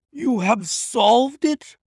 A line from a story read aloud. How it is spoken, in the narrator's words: I cried